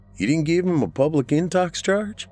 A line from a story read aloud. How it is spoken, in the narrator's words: Roger asks